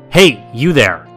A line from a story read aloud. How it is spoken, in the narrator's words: yelled out